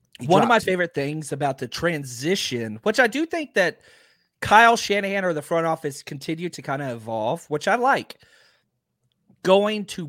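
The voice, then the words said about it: Strained, not-yet-recovered voice. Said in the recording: “My voice is still not recovered from the draft weekend”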